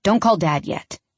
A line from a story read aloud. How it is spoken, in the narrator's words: Dean says gruffly